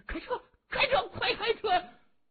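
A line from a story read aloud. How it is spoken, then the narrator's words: Frightened shout. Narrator (Chinese): 韦国栋吓得一缩脖，就喊开了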